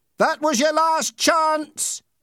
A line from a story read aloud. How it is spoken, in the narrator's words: shouted Ernie